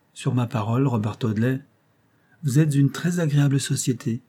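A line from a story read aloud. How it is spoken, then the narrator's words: Exclaiming. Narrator (French): s'écria enfin Alicia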